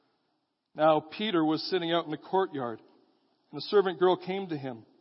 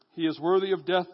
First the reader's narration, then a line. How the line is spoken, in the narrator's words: they answered